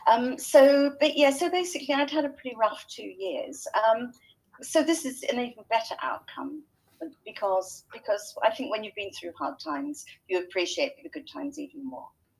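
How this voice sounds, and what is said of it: English accent. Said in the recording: “You can probably tell by my accent that I'm not a natural Kiwi. I'm a pretend Kiwi... I grew up in England.”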